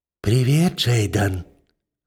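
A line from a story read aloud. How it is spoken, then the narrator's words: Husky pleasant female whisper. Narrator (Russian): хрипловато шепчет мне прямо в ухо приятный женский голос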